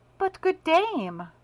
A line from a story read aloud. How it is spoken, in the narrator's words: cried Olga